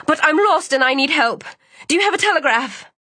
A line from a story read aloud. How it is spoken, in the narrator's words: Cianni blurted